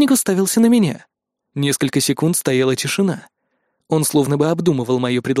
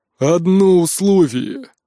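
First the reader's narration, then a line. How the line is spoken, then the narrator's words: Booming giant voice. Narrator (Russian): прогремел великан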